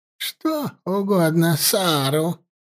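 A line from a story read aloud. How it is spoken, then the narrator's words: Old woman's creaky voice. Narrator (Russian): проскрипела старуха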